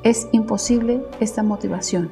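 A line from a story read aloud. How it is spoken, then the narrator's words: Plain. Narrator (Spanish): dijo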